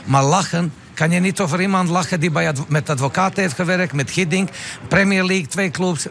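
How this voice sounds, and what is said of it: Speaks Dutch with an accent. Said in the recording (Dutch): “mijn accent”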